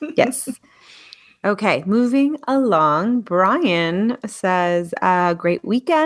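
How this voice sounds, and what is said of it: Usual voice. Nothing is said of it.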